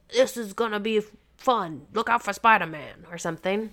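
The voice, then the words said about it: Good imitation of a character's voice. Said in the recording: “the Jameson guy comes on and is like ... that was a great impression.”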